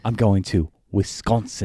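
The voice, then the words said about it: Put-on British accent. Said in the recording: “Chad's got a better British accent than you do”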